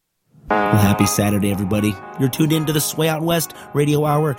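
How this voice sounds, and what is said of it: Hoarse, strained voice. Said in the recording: “I kind of lost my voice”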